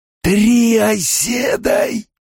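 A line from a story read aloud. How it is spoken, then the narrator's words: Surprised, dry crumbling hiss. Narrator (Russian): прошипел получеловек, удивленный голос будто осыпался мертвой пылью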